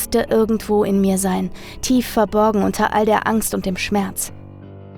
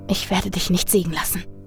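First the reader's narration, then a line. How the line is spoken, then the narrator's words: Whispered. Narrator (German): flüsterte ich in die Finsternis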